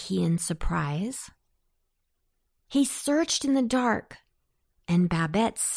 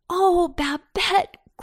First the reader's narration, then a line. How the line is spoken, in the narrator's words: cried he